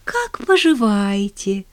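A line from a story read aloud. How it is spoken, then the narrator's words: Beaming exclamation. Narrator (Russian): воскликнула она, сияя улыбкой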